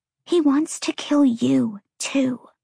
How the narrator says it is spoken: Lahaba whispered

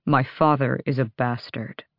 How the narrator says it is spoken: he said quietly

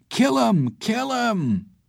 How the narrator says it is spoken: Some of them were yelling

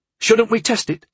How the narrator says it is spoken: asked eagerly

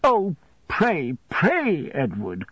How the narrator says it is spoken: cried my mother

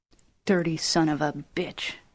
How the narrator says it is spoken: he whispered

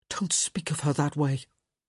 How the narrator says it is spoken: Gareth whispered

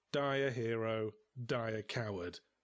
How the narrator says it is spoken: I said bitterly

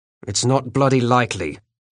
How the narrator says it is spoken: said harshly

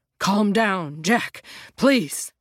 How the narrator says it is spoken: Jim pants

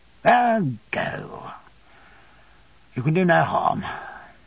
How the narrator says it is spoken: His face was thoughtful, he sat considering a little before he answered in a low voice

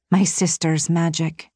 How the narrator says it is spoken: said softly

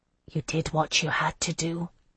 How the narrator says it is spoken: I said softly

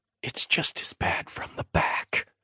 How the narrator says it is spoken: Lena whispered

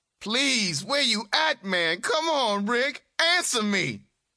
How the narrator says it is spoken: At the top of her lungs

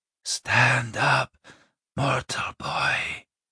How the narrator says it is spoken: she said quietly

